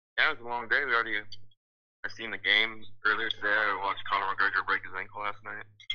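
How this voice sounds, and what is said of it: Low, depressed-sounding voice. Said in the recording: “Why do you sound depressed? ... You sound depressed as fuck, dude.”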